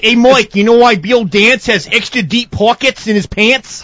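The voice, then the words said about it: Failed attempt at Australian accent. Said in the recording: “I hope that's not an Aussie accent ... It's trying to be, but ... It's gonna sound Boston, Jersey Boston and Polak ... Yeah, European ... It's totally diluted ... A bit of Cajun in there ... It's Louisiana”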